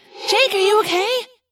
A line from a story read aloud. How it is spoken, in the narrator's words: Cassie cried